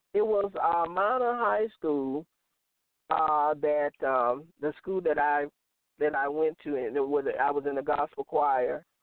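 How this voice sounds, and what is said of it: Strong Southern American accent. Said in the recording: “you have a strong Southern accent.”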